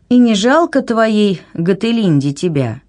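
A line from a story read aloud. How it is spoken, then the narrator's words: Sympathetic sigh. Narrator (Russian): сочувственно вздохнула она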